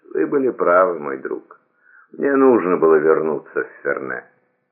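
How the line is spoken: Sad, just regaining consciousness. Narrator (Russian): Придя в сознание, Вольтер печально произнес

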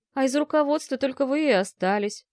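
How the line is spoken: Sad young man. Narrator (Russian): грустно поведал юноша

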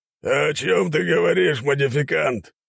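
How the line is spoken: Slightly hoarse question. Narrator (Russian): немного хриплым голосом спросил

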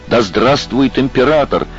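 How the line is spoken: Rapturous shout, count. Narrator (Russian): закричал граф, чтобы тот запомнил его восторг

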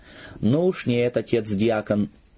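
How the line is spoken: Resonant, rich laughter. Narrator (Russian): звучно и сочно рассмеялся он

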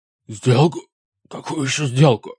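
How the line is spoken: Hoarse. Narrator (Russian): прохрипел он

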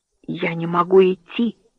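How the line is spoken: Barely audible whisper. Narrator (Russian): прошептал едва слышным голосом

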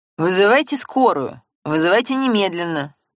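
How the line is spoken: Barking. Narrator (Russian): рявкнул Семен

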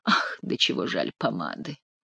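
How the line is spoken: Sighing. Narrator (Russian): вздохнул Шико

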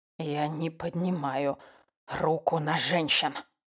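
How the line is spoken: Whisper. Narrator (Russian): прошептал я

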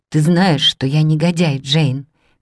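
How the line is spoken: Sad question. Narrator (Russian): печально спросил он

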